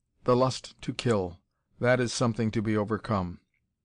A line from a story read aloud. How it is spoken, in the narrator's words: her brother, Jorn, only murmured